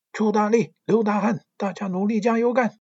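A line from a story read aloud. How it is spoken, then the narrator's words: Cheering chant. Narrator (Chinese): 喊一嗓子啦啦队的口号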